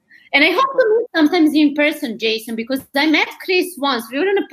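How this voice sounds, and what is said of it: Eastern European accent. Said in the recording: “my Eastern European accent”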